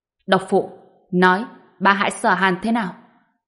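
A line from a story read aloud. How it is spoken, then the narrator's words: Stern question. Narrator (Vietnamese): Ông ta nghiêm nghị hỏi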